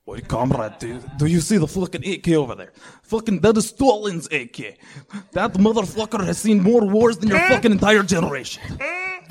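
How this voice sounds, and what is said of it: Attempted Russian accent sounding Irish. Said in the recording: “That's Russian? ... That's Russian? ... Sounded Irish a little. ... Totally Irish. ... That was Scottish for sure.”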